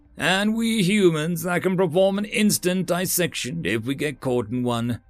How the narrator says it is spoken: Twist Under said cheerfully

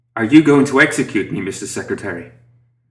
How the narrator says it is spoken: Lucius with a dark chuckle

